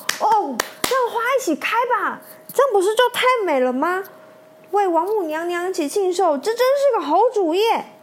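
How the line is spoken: Many voices cheering together. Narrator (Chinese): 众仙一起起身叫好

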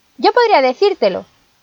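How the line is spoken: Shout. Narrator (Spanish): gritó Pulgarcito

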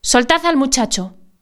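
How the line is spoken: Emotional shout. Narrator (Spanish): el capitán, que no lo podía resistir más, gritó con una voz emocionada

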